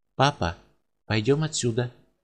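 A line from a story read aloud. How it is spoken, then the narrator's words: Quiet subdued child. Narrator (Russian): мальчик вдруг присмирел и тихо сказал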